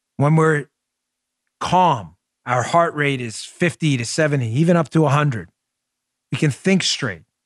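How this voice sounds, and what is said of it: Queens accent, loud-ish calm tone. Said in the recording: “it's my Queen's voice, in a very calm voice. This is calm for Queens ... Some of you say I yell a lot on the mic ... you grow up from Queens. This is a normal tone.”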